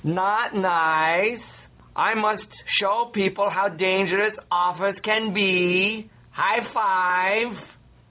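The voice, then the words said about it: Borat-style put-on accent. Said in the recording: “talking like Borat ... Borat impersonation”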